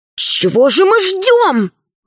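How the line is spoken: Indignant whisper. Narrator (Russian): возмущенно прошептал Пашка

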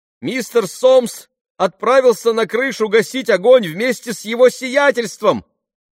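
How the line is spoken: Shout. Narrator (Russian): крикнула кухарка Бену

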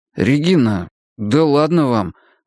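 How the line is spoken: Strained, forced words. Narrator (Russian): выдавил я

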